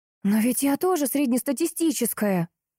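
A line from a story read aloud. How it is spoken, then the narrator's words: Exclaiming. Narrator (Russian): воскликнула я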